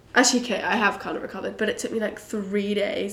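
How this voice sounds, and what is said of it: Croaky, slightly husky voice. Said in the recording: “I was hoping for a more of a husky, sexy voice today, but it's not quite happening. It's a little bit croaky, a little bit husky”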